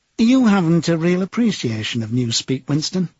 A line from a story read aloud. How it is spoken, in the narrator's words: he said almost sadly